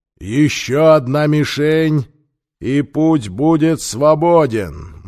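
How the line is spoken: Grim shout. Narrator (Russian): мрачно крикнул Сокка, судья

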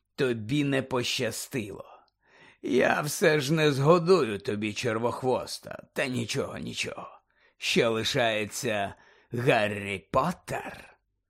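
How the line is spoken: Snake's hiss. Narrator (Ukrainian): Змія зашипіла

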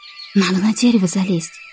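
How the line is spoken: Whisper, girl. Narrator (Russian): прошептала Ксюша

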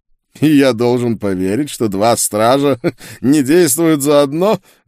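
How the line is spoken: Sorcerer's sneering laugh. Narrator (Russian): глумливо рассмеялся чародей

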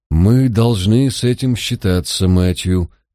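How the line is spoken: Gently remarked. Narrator (Russian): мягко заметил Джайлз

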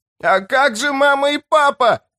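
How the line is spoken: Shrill high-pitched wail. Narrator (Russian): завопил он тонким голосом

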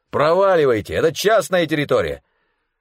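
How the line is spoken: Irritated shout. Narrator (Russian): чей-то раздраженный голос крикнул

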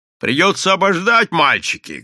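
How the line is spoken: Shout. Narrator (Russian): крикнул он сыновьям

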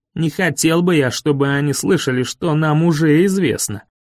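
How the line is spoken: Grumble. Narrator (Russian): проворчал Дэйви

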